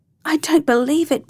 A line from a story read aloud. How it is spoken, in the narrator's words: Bill cried